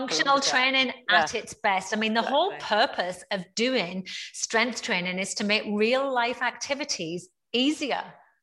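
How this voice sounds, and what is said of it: Northeast English accent. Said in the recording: “you're obviously from the Northeast, which I love that your accent is purely retained”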